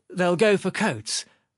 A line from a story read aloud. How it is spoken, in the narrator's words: replied Sharikov